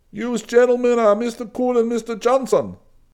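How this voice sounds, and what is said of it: Turkish Brooklyn accent. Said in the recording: “Smiling at his Turkish Brooklyn accent”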